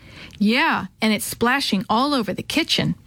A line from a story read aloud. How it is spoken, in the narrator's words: Maria added with a laugh